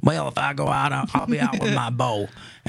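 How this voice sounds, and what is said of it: Put-on Southern accent. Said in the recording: “he's from the South. That's the Southern accent.”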